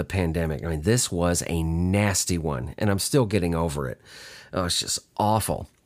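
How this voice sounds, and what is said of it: Slightly husky voice. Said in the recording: “my voice sounds a little husky, I'm getting over one of the worst flus I've ever had in my life”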